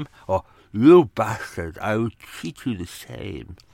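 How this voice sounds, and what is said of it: Basil Rathbone-like voice, slurred as after stroke. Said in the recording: “doing his voice ... Basil Rathbone with a, a having had a stroke”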